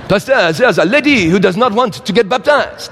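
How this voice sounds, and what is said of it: Put-on French accent. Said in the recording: “Beautiful French accent.”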